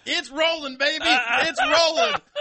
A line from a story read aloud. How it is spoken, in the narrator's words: he was yelling